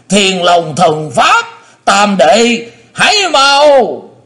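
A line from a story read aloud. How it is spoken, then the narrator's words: Terrified, straining shriek. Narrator (Vietnamese): sợ phát rung lên luôn, cố sức thét lớn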